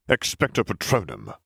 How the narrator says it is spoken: Snape spat

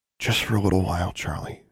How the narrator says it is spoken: she whispered

